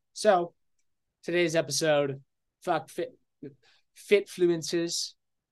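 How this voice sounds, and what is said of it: Put-on British accent. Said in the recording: “I just veer towards speaking a British accent when I say that”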